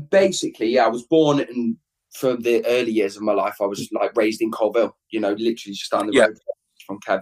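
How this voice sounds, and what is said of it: Distinct regional accent. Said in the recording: “your accent then, because I mean I can hear very distinct accent at the same as Kev ... did you hail from Leicestershire, or were you living in Wales”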